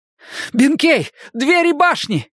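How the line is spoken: Desperate shout. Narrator (Russian): крикнул я в отчаянии

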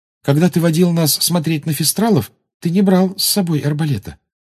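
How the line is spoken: Timid. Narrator (Russian): робко сказала Гермиона

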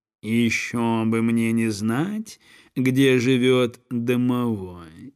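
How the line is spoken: Gentle meowing voice. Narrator (Russian): ласковым голосом промяукал кот

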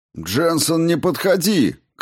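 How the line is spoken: Shouted. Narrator (Russian): крикнул майор

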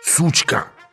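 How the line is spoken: Hissing. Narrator (Russian): прошипела моя новая ученица

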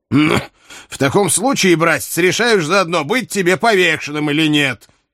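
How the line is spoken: Angry uncle. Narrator (Russian): сердито сказал его дядя

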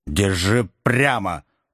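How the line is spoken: Grumbled. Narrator (Russian): пробурчал Бенджамин

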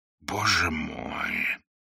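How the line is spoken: Amazed whisper. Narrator (Russian): прошептал канонир, хотя это восклицание лишь в малой степени отражало то изумление, которое он сейчас испытывал

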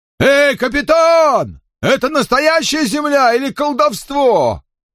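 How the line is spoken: Shouting. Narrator (Russian): Кормчий крикнул

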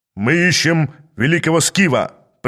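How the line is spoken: Booming. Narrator (Russian): прогремел один из них

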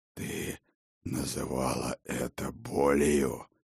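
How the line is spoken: Hoarse, mocking. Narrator (Russian): прохрипел он издевательски

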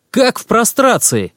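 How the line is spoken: Shout. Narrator (Russian): крикнул Всеволод Игнатьевич

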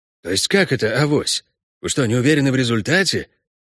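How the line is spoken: Bewildered. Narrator (Russian): промолвил Геларди, растерянно

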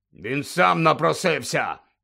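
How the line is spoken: Barked. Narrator (Ukrainian): гаркнув Дадлі

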